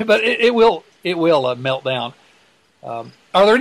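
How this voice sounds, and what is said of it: Usual voice. Nothing is said of it.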